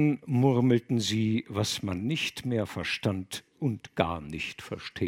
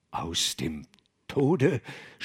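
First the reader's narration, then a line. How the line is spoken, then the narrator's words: Stammering. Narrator (German): stammelte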